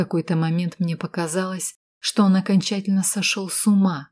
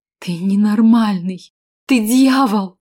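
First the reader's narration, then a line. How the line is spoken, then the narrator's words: Exclaiming female. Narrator (Russian): воскликнула я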